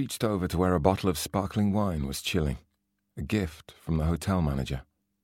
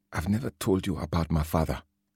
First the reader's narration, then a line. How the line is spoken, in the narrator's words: said quietly